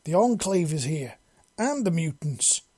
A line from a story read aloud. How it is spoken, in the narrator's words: she exclaims